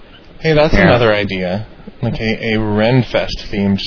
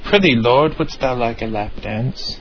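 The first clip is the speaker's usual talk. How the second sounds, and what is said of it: Bad fake English accent. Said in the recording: “in a horrendously fake English accent”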